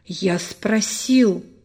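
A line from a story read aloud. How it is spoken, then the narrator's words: Breathless and angry. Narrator (Russian): задыхаясь, произнес он сердито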